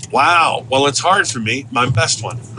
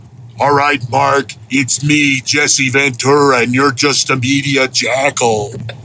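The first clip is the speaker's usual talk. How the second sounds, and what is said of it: Deep throaty imitation of another person. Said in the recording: “Do your best famous person impression ... You do Jesse so good ... talking way down in my throat”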